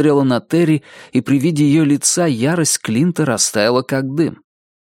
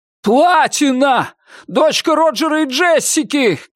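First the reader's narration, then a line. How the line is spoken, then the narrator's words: Shouted. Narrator (Russian): крикнул Терри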